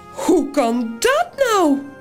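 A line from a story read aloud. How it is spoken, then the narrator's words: Piglet, high voice. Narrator (Dutch): zegt het varkentje met de hoge stem van Toos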